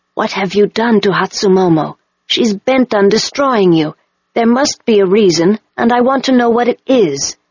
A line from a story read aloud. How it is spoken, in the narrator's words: say quietly to me